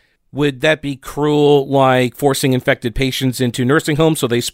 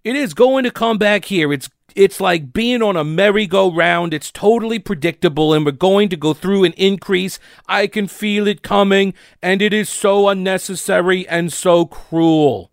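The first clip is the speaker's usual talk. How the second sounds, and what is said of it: Imitated New York accent. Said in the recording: “That's my best, Cuomo. It's really weird, like how difficult it is for me to pick back up the New York accent.”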